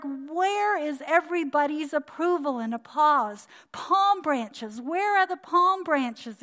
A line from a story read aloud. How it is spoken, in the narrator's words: he shouted